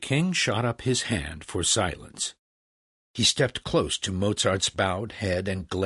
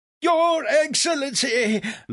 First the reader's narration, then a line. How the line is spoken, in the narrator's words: Legros begged